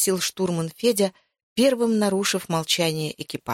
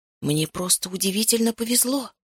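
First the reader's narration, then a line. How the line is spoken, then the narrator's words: Fearful whisper. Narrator (Russian): прошептал я, боясь, что услышат остальные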